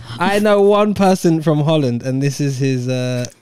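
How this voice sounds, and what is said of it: Usual voice. Nothing is said of it.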